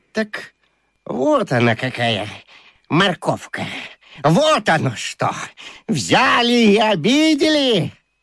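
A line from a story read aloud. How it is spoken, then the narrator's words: Hissed from under table. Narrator (Russian): Кто-то еще зашипел на Катю из-под стола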